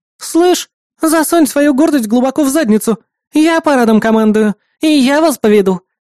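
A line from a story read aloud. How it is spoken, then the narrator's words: Snapping retort. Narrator (Russian): огрызнулась Хелен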